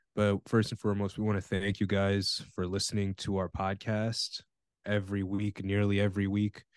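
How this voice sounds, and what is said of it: Raspy voice. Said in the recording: “my throat is very raspy. I've been sick for the past week.”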